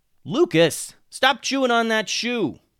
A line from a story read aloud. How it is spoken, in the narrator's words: yelled Alex